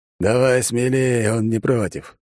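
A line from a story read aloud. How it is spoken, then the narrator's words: Chuckling. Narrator (Russian): хохотнул главный ниндзя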